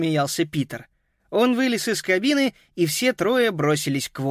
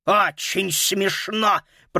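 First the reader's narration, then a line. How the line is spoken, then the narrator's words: Angry growl. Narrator (Russian): прорычал мошенник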